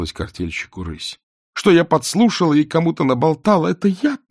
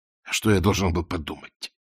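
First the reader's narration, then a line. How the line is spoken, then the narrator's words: Mumbling. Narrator (Russian): промямлил Воля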